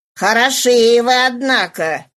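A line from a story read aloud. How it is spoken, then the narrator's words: Distant shout, man. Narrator (Russian): закричал он ему издалека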